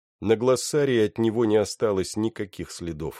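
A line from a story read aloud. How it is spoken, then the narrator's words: Plain. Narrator (Russian): сказал Доул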